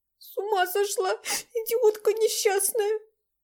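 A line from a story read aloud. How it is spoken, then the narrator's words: Sobbing. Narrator (Russian): Всхлипнула Настя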